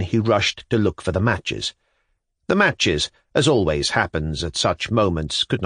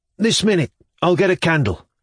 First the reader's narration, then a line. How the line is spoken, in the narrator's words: Shatov cried faintly